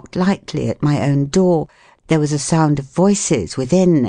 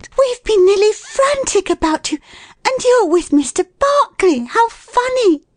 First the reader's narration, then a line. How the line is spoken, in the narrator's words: she cried